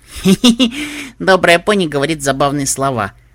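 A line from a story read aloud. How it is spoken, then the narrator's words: Laughing. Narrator (Russian): смеялась Пупи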